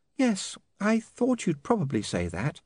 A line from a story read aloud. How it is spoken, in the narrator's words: she said sadly